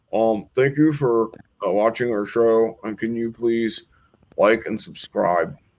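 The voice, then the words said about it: Imitates another person's voice. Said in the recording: “my best Massimo impersonation”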